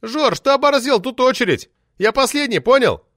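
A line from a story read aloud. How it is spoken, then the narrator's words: Man shouting. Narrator (Russian): Крикнул бородатый прозаик Юрка Доброскукин, похожий на лешего, забредшего в город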